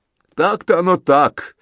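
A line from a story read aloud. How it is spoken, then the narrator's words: Old warrior laughing. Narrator (Russian): смеялся старый воин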